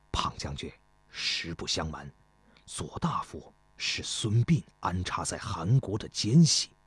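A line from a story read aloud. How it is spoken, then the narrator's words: Relieved whisper. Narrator (Chinese): 司马大夫松了口气，悄声说道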